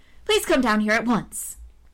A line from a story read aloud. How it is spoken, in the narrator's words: she cried